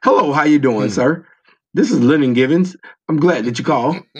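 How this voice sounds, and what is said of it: Put-on formal white-sounding voice. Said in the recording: “they put on a white man voice.”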